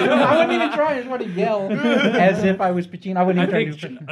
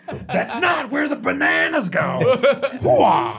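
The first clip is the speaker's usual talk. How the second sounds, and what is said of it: Frustrated yelling imitation of another person. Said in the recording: “good frustrated yelling Pacino impersonation”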